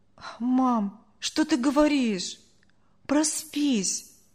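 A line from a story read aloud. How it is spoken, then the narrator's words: Boy sighing. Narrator (Russian): вздохнул мальчик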